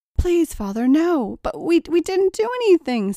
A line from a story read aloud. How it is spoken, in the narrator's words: Cynthia pleaded